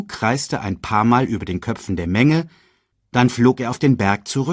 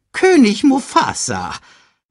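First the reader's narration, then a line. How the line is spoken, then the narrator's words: Excited report. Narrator (German): berichtete er aufgeregt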